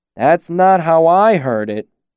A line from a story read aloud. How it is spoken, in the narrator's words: Graham said slowly